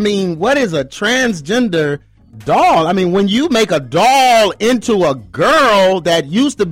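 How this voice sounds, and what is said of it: Usual voice. Nothing is said of it.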